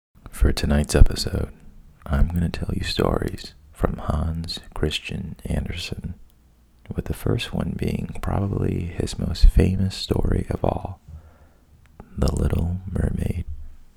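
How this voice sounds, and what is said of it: Deliberately boring, monotone voice. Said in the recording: “in a really boring voice”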